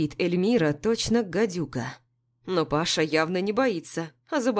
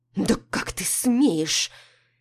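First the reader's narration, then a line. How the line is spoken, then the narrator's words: Through gritted teeth. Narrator (Russian): цедит сквозь зубы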